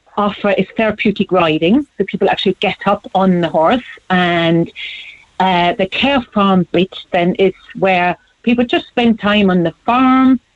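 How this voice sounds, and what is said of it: German accent. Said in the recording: “I was trying to place the accent. ... Germany”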